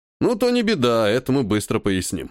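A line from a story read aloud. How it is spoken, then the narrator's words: Snorting. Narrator (Russian): хмыкнул он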